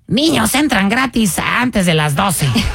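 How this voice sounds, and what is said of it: Child's voice. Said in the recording (Spanish): “voz de niño”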